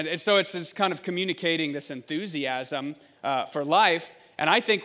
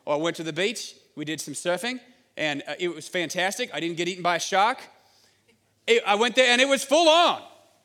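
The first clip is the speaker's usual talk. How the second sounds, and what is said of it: Put-on Australian accent. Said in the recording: “Some of you are very impressed by that accent ... wow, that's pretty good ... your best Crocodile Dundee accent”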